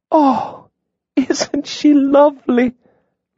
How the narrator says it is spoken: Lydia breathed

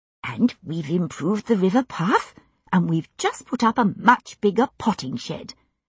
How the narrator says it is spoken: Sissy Bartram was saying eagerly

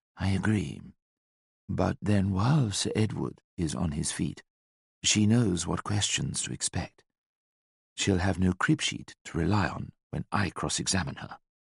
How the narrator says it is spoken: whispered

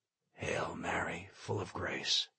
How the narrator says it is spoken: started to whisper

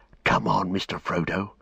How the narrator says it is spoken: he whispered

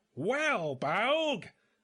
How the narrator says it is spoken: he screamed

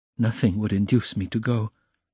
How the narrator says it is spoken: she whispered in despair to Razumihin

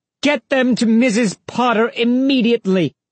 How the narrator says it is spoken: she leaned over the railing and yelled

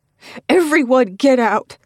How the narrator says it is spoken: yell

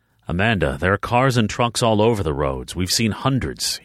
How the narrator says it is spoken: he grumbled

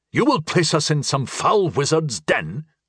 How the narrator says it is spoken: snarled Granard defiantly

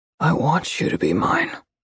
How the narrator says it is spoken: he murmurs

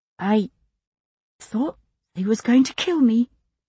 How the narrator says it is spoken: she said, trying hard to keep her voice from quivering

